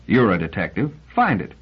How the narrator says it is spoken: Liebig said scornfully

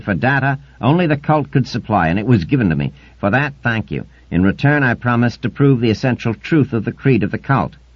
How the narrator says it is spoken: continued Eitan angrily

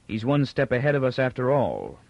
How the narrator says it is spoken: Captain Pritchard said icily

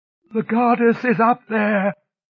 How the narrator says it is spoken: woman moaned

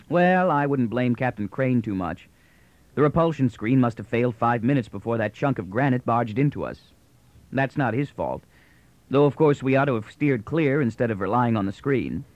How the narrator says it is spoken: Moore smiled blandly and continued

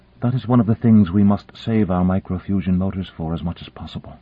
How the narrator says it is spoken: Kalinin murmured

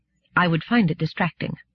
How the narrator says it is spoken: Gladia said stiffly

